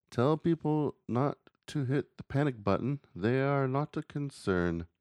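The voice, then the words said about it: Put-on character voice with accent. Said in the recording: “gave him that voice or that accent”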